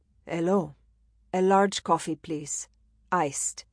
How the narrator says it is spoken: he said in a smooth and low voice, tinged with an accent she couldn't place

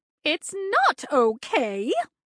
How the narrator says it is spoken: the porcupine shrieked even louder

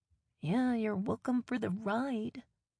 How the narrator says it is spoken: I mumble to myself

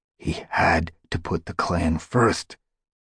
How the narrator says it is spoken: Graystripe hissed back

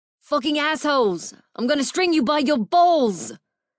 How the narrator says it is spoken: a familiar voice yelled

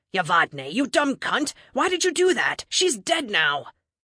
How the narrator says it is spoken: Gonal snarled

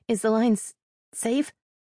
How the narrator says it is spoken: Her stammer

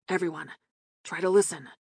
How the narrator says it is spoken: Sterling murmured

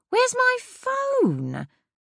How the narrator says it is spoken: suddenly shrieked

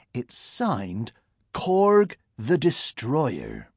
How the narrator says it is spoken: she went on slowly

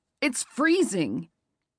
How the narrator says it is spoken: Nolan yelled back

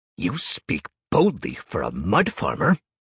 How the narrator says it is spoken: he spat

